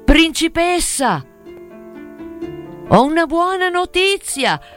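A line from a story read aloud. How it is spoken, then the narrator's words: Shout. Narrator (Italian): Gridò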